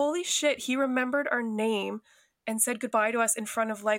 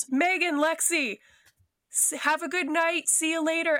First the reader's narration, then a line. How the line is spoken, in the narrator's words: he yelled